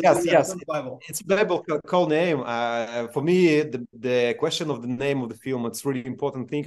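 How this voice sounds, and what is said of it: Strong non-native accent. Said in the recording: “I have more accent than language”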